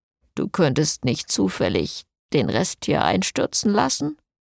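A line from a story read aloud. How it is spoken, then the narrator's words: Murmured to him. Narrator (German): raunte ihm Jason zu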